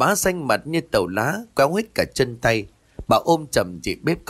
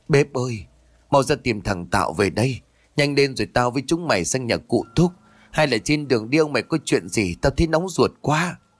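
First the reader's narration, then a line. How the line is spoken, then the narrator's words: Sobbing trembling choked voice. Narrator (Vietnamese): bà bá sụt sùi giọng nói có phần run rẩy với hơi thở như nghẹt ứ ở cổ họng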